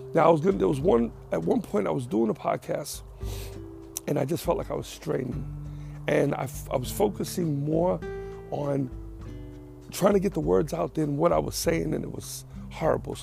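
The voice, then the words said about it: Strained, recovering voice. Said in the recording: “You can still hear it in my voice. I got to a point where I lost my voice.”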